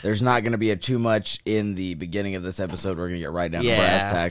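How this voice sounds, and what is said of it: Hoarse, strained lost voice. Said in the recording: “As you can obviously tell, I've lost my voice. ... screaming my fucking lungs out, so I'm dying.”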